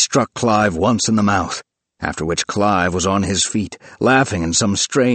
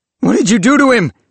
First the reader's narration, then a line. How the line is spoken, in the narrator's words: cried Willis